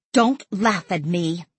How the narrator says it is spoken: Stella snapped

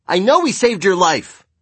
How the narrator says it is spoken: cried Luke, who was 10 years old

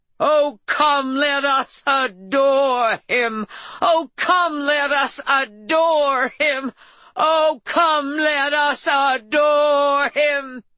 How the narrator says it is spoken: In a bellowing, grief-choked voice, Norma shouted

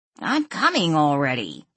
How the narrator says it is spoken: Ian grumbled

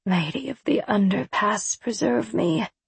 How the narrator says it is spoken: muttered Emily

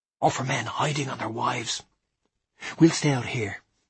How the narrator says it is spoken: whispered Julian to me

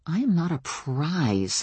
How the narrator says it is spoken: I muttered

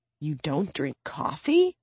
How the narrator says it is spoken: Suna hisses

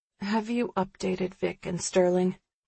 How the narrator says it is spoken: I mumble

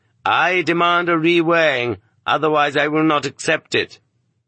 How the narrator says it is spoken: the dissatisfied prisoner declared loudly

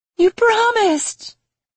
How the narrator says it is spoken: she wailed over and over

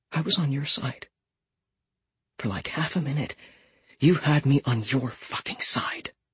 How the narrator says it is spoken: She whispered, which was worse than if she'd shouted

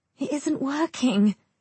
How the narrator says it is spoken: I moan

